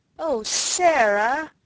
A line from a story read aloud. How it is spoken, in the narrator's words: Ermengarde almost wailed in her reproachful dismay